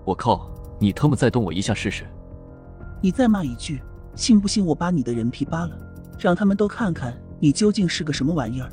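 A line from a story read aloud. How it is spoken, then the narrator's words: Cold voice. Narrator (Chinese): 黑影冷声道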